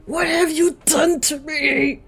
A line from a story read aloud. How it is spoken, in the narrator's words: Mia yells in a distorted voice